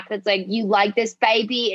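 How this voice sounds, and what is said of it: Imitates another person's accent. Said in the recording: “I just did your accent”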